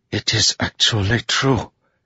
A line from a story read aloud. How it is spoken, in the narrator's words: Zeth whispered